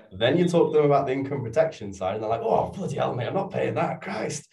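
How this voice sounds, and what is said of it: Yorkshire accent comes out. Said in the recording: “your Yorkshire accent came out then”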